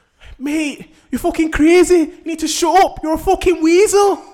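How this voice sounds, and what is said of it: Imitates another person's accent. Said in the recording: “Do the accent as well, because I love it.”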